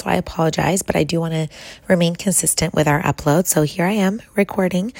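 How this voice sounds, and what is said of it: Raspy, strained voice. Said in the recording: “My voice is still feeling a little bit raspy ... this kind of strained voice”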